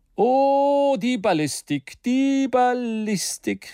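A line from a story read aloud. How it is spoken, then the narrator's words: Calling out. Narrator (German): rief J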